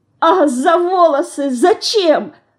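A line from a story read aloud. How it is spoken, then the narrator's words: Sobbing. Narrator (Russian): всхлипывает Динка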